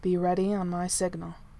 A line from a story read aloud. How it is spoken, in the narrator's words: he said, his voice low